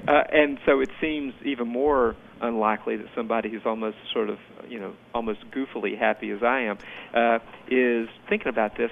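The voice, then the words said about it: Southern US accent. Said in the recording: “People can hear my accent. I'm a Southerner myself”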